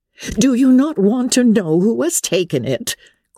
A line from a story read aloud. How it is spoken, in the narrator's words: cried his wife impatiently